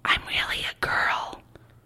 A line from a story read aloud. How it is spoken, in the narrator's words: he said in a whisper